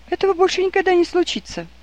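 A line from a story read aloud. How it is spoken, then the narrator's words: Passionate exclamation. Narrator (Russian): горячо воскликнула Рэйчел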